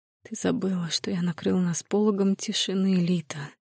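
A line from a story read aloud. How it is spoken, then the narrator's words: Intimate whisper in ear. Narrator (Russian): прошептал он мне в ухо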